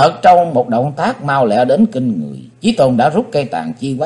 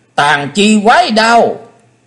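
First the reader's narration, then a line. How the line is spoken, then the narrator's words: Shrill female scream. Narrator (Vietnamese): Ngọc Diệm Diêm Bà đứng bên ngoài hét lên lanh lảnh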